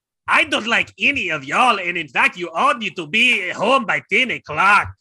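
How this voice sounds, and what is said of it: Put-on Mexican accent. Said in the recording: “With the accent that's written in there ... It does say in parentheses Mexican accent.”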